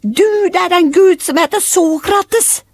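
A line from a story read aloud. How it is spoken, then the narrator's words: Children shouting. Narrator (Norwegian): Ungene … Aurora kunne høre at de ropte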